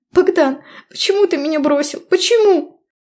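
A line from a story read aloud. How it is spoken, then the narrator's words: Hysterical shriek. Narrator (Russian): Визжала в истерике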